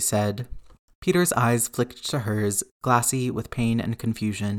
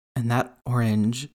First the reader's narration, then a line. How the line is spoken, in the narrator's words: MJ said hoarsely